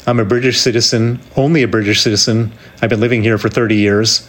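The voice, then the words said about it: Very American accent. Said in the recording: “my accent is very American”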